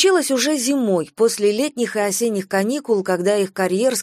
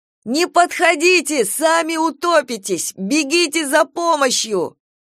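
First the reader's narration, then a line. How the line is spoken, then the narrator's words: Breathless hoarse yell. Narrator (Russian): задыхаясь, заорал, то есть прохрипел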